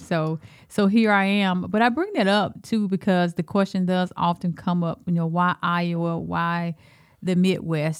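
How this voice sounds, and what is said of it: Deep Southern Alabama accent. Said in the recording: “this accent, right? And that's that's from my roots of down south in Alabama ... you from deep South because you got that deep in you ... they still couldn't take that Alabama accent from me”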